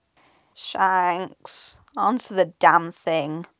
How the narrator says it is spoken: Ben groaned, pulling a pillow over his head

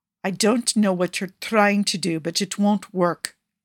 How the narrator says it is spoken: Fabio growled

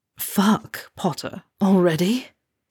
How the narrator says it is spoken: Draco gasped as he felt a distinct bulge press against him

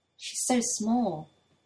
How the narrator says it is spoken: Toya murmurs

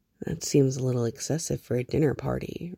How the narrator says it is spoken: Reese murmured

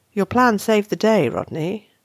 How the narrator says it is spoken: Shepherd drawls

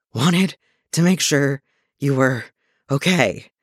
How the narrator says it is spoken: Clint pants, sucking in air

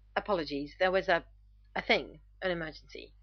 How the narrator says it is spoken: Rodney stutters

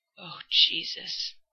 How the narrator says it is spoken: Dean gasps out, still hunched over him and going boneless in pieces, like each muscle group is caving bit by trembling bit

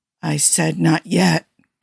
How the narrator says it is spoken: Kirk muttered

